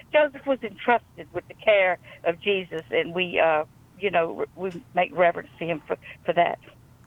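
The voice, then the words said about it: Louisiana Southern accent. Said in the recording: “I could listen to your Louisiana accent for the rest of the night”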